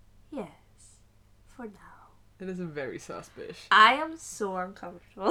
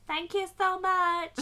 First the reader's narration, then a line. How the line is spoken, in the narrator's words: I yelled